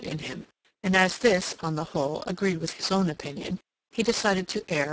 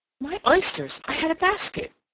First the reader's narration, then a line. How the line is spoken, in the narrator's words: she exclaimed